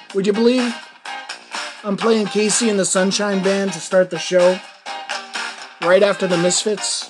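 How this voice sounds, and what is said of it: Worn-out, damaged voice. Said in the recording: “I know my voice sounds awful ... my voice is shot”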